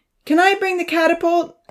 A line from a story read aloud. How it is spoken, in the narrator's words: Odin called out above the cheers